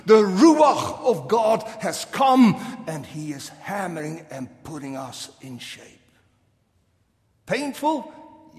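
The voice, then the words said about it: Dutch accent. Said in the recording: “my accent ... I grew up in the Netherlands, lived there for a good 20 years”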